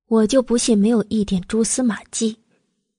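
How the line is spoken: Calm, after brief pause. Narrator (Chinese): 慕容九九略作沉吟，淡淡的道

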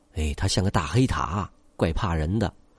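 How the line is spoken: Low mutter. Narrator (Chinese): 他低声找吧了句

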